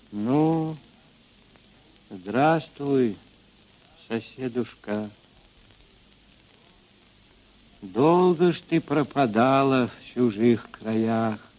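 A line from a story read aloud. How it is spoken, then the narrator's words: Quiet, older woman. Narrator (Russian): Ильинична, мать Григория Мелехова, негромко сказала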